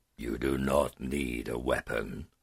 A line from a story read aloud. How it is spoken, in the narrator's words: the dragon growled